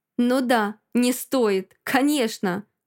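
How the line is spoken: Angry smirking. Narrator (Russian): Он зло усмехается

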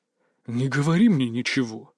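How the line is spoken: Breathed out. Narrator (Russian): выдохнул Кабанов

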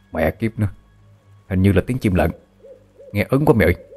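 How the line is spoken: Young man's frightened whisper. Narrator (Vietnamese): gã thanh niên thì thào với nhau đầy sợ hãi

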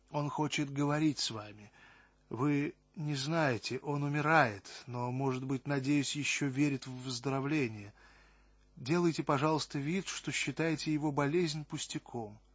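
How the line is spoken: Quiet, distressed woman. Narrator (Russian): Огорченная, нервная, страдающая женщина стояла перед Аммоном, тихо говоря

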